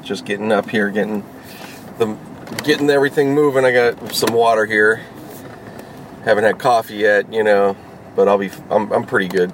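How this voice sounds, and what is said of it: Rough early-morning voice. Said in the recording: “my voice sounds a little rough”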